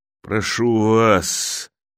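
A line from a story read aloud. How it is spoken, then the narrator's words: Dog's wheezing rasp. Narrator (Russian): хрипел пес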